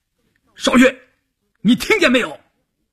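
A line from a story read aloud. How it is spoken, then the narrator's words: Calling out. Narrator (Chinese): 关山林喊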